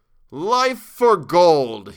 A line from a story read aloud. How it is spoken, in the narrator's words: cried